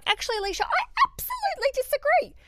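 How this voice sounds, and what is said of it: High-pitched voice. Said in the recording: “using that high voice”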